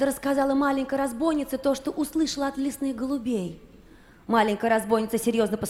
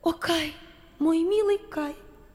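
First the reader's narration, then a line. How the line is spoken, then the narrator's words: Sighing. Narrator (Russian): вздохнула Герда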